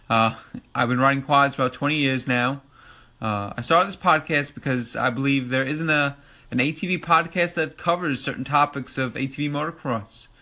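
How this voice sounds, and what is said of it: New York accent. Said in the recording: “as you probably could tell from my New York accent”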